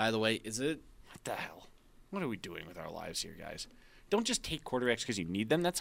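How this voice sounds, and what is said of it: Usual voice. Nothing is said of it.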